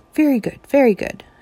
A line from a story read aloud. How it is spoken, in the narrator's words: shouted the juggling master